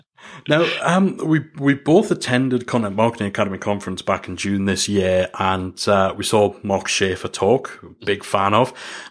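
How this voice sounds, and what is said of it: Softened Geordie accent. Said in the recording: “my accent ... for as much as I've tried to soften the Geordie accent ... I've heard far broader Geordie accents”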